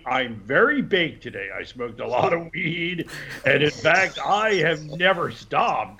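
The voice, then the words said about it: Seth Rogen impression with laugh. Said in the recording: “celebrity voices, one of my new favorite voices to do is Seth Rogen. I just love doing Seth... That laugh's spot on.”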